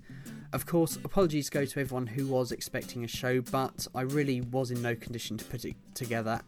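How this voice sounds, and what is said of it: Voice sounds ill. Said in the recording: “As some of you can probably tell from my voice, this big horrible flu which is going around has finally caught up with me”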